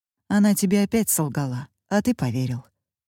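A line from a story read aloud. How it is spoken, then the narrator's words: Dull flat voice. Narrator (Russian): тусклым голосом объявила Мармеладова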